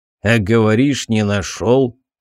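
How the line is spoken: Snort. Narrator (Russian): хмыкнул сержант

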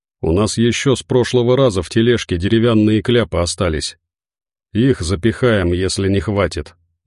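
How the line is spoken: Gloomy reassurance. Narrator (Russian): мрачно успокоил

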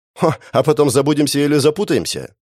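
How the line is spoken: Snorting. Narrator (Russian): хмыкнула та

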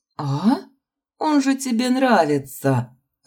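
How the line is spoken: Laughing. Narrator (Russian): Расхохоталась я

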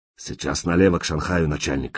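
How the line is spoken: Hoarse. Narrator (Russian): хрипло сказал арестованный

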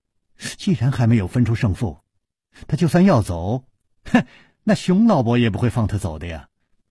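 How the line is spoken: Laughing. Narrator (Chinese): 柳无梅笑着说

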